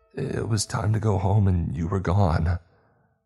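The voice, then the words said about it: Shaky, trembling voice. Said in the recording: “replied in a shaky voice”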